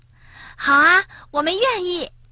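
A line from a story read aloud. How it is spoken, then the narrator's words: Laughing old woman. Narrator (Chinese): 熊婆婆笑着答道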